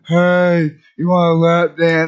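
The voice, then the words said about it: Unconvincing imitation of women. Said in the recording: “if that's your imitation of them, those weren't girls, dude.”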